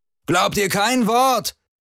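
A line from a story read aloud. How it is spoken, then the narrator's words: Shouted. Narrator (German): schrie Lian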